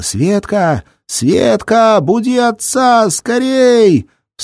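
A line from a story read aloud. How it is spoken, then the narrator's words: Yelling. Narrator (Russian): Заорала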